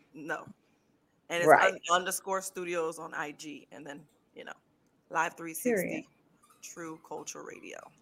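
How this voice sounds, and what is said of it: Very deep regional accent. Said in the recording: “the accent? ... It's really deep. ... I can't fix the accent.”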